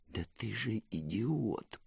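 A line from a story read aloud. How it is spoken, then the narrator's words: Stunned whisper. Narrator (Russian): прошептал Ирбран пораженно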